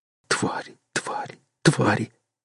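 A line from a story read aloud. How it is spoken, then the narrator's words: Goose whispering through twisted lips. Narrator (Russian): шептал перекошенными губами гусак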